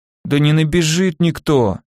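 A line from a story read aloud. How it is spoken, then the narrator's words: Very sleepy fat man. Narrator (Russian): совсем уж сонно заявил толстяк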